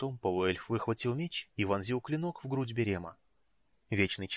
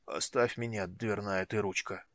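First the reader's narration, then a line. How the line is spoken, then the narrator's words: Weak grumble. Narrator (Russian): слабо проворчал Флинт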